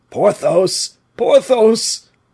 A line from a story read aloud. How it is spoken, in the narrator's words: cried Aramis